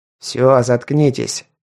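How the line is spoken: Growled bark. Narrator (Russian): рыкнул тот нейро, что заходил

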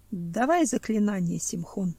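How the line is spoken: Quiet request. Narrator (Russian): тихо попросил горностай

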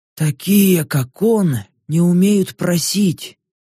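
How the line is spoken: Slow. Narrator (Russian): медленно произнес Баск

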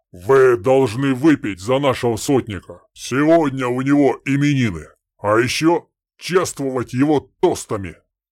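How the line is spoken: Thunderous voice, hiccup. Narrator (Russian): Громоподобным голосом заявил детина и икнул

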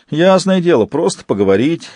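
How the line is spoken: Snort. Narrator (Russian): хмыкнул Верзила

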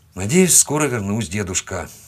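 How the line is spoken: Muttered. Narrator (Russian): буркнул я

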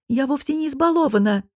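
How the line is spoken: Indignant flare-up. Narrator (Russian): вспыхнула Летис

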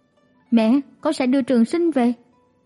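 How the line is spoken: Raised voice. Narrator (Vietnamese): chàng cao giọng nói

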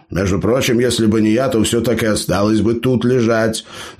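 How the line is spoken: Grumbling bearded man. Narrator (Russian): заворчал бородатый

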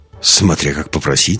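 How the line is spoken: Snorting. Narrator (Russian): хмыкнул Андерс

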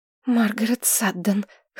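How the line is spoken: Hoarse exhale. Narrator (Russian): хрипло выдохнула она

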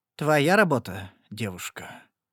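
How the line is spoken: Strangely quiet question. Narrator (Russian): странно тихо спросил Жескар

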